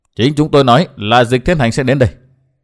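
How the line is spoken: Cold reply. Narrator (Vietnamese): Tốc Đạo lạnh lùng đáp

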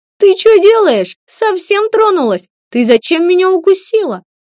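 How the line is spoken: Yelling. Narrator (Russian): заорал он

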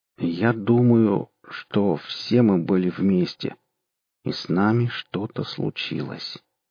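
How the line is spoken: Slow. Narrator (Russian): сказал Костя медленно

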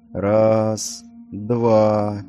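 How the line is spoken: Slow counting. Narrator (Russian): медленно считал Серхар

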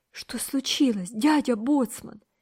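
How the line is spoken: Frightened question. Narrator (Russian): испуганно спросил Томик

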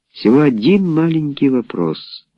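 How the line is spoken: Gentle voice. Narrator (Russian): мягко сказал Авери

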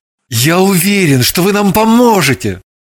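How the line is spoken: Heartfelt exclamation. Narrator (Russian): С чувством воскликнул Орлов

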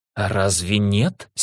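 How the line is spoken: Hateful through teeth. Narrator (Russian): с ненавистью процедила Мэлен

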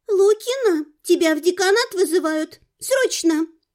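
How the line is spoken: Squeaky voice. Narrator (Russian): пропищала

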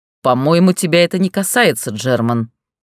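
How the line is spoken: Growled, matching tone. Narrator (Russian): прорычал Рихт в тон ему

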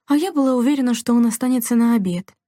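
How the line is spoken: Sighing. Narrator (Russian): вздохнула Делла

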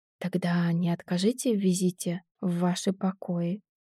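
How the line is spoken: Whispered in ear. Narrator (Russian): шепнул мне на ухо

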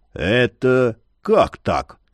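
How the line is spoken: Disbelieving rasp. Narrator (Russian): прохрипел Яр, не веря глазам

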